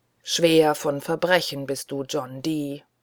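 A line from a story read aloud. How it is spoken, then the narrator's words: Groan. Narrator (German): stöhnt der Rote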